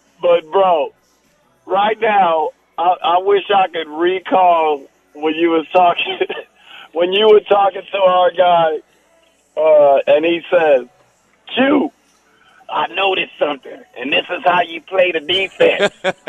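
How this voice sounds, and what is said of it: Hoarse, worn-out voice. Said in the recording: “my voice is always whack. I lost my voice.”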